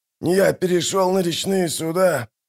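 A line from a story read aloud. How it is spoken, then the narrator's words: Wheezing. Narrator (Russian): прохрипел он наконец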